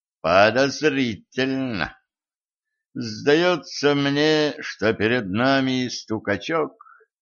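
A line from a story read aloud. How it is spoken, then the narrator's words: Mournful tone. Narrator (Russian): траурным тоном произнес Денис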